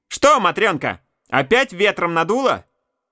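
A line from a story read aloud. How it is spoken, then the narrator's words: Heartless shout. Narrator (Russian): Барчук Степан Васильевич с свойственным ему бессердечием крикнул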